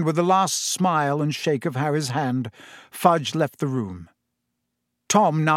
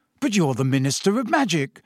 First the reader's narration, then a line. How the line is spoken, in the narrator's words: said Harry eagerly